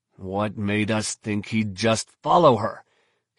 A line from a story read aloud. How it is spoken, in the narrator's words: growled